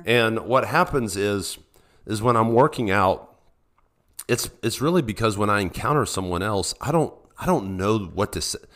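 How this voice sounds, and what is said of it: Sick, under-the-weather voice. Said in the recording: “I'm a bit under the weather. Okay, this isn't a radio voice.”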